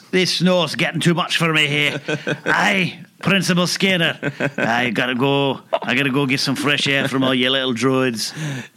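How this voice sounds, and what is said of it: Bad put-on Scottish accent. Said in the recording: “his space Scottish accent ... That's the worst accent ever.”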